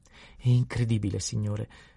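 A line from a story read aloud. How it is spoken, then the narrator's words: Apologetic exclamation. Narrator (Italian): esclamò in tono di scusa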